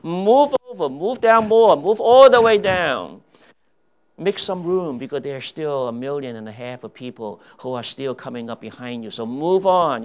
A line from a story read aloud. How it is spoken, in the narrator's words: officers yelling